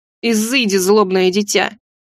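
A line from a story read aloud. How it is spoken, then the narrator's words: Grumbled. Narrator (Russian): Буркнула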